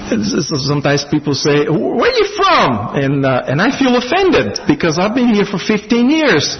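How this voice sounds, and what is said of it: Slight foreign accent. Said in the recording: “I have a little accent probably”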